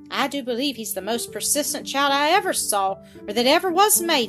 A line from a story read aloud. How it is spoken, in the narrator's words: Zilla exclaimed with angry impatience